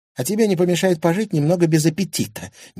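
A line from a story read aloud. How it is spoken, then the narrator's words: Displeased snort. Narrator (Russian): недовольно фыркнула Милана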